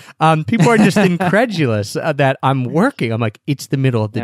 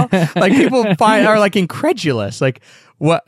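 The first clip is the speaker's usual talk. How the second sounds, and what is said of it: Voice cracks mid-sentence. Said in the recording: “my voice just cracked”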